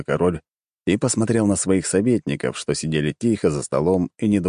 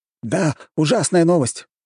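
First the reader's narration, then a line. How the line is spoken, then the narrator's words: Exclaimed. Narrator (Russian): воскликнул кто-то из советников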